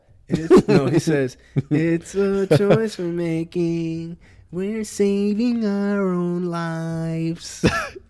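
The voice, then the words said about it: Imitates another person's singing voice. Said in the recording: “That's how MJ sounds to you? ... That's your MJ impression.”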